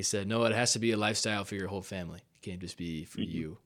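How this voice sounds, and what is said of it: Imitates another person's voice. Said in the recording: “That's a great Jordan impression too”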